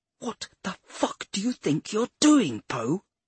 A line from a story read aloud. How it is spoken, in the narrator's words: something ... snarled